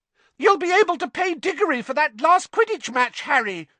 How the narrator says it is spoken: shrieked Katie Bell

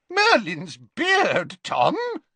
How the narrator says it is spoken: yelped Slughorn

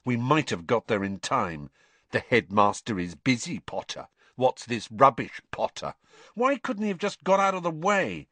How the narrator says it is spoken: Harry said bitterly

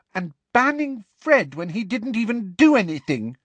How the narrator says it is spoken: said Alicia furiously

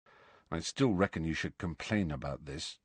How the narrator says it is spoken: said Ron in a low voice

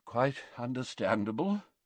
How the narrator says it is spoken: murmured Dumbledore

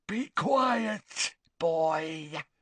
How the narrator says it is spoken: snarled Gaunt in parcel tongue

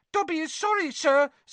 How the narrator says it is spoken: squeaked Dobby anxiously

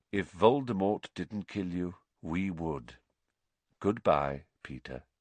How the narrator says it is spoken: said Lupin quietly

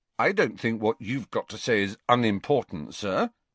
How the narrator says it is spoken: said Harry stiffly

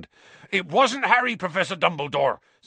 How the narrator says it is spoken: said Hagrid urgently

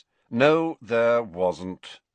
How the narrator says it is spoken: said Snape in a bored voice

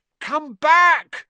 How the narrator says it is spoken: Ron yelled after it

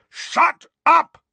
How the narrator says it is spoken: roared Uncle Vernon and Aunt Petunia in unison

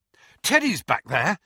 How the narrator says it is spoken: he said breathlessly

